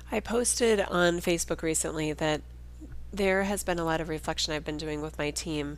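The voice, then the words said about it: Nasal, congested voice. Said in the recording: “You can probably hear in my voice I have a cold ... my voice sounds so nasal”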